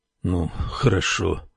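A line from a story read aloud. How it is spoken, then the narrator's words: Gloomy. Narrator (Russian): мрачно проговорил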